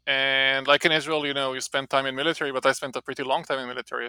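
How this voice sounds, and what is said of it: Israeli-accented English. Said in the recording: “I'm Israeli, you can hear I have an accent.”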